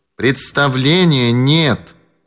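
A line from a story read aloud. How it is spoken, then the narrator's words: Squeaky voice. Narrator (Russian): ответила пискливым голосом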